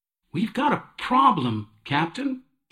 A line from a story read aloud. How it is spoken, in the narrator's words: chirped